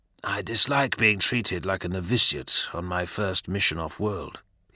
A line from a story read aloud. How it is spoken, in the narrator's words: said quietly